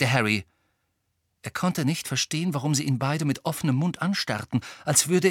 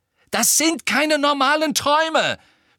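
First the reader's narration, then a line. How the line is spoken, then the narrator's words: Shouting angrily. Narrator (German): schrie Harry sie an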